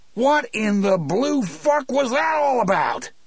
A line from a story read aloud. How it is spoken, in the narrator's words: Anderson roared